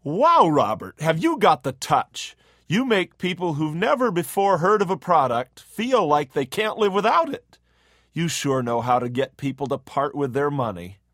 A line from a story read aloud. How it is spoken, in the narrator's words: his boss exclaimed